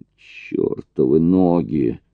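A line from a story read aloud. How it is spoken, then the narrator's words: Groaning. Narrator (Russian): простонал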